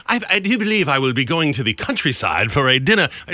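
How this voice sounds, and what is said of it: Exaggerated fake posh British accent. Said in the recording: “this woman's got the worst accent. How, they couldn't have gotten a real British woman? ... she has the worst British accent I've ever heard ... She was just overacting everything that she did, and so it just came across as fake and cheesy”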